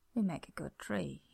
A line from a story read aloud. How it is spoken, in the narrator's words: said quietly, smiling a little